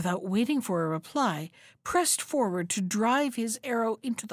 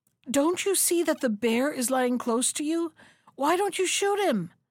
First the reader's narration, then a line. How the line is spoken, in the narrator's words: the second brother cried out breathlessly